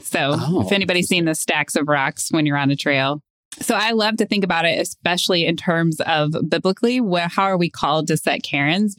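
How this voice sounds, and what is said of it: Southern American accent. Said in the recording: “my Southern accent coming out”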